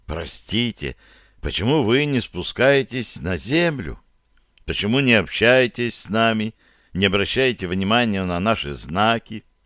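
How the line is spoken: Uncertain question. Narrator (Russian): сестричка неуверенно спросила

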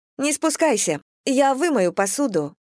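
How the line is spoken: Cheerful chirping. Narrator (Russian): весело прощебетала она

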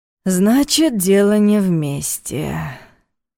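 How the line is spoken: Sighing. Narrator (Russian): вздохнул Ваня

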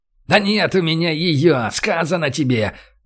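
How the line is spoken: Howling. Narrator (Russian): взвыл Олег

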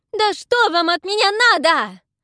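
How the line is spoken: Shriek while struggling. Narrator (Russian): завизжала я, вырываясь

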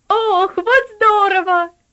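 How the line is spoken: Excited child's exclamation. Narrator (Russian): воскликнул Артур, 10-летний проказник

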